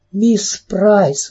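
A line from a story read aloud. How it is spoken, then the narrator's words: Exclaimed. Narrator (Russian): воскликнула Кэрри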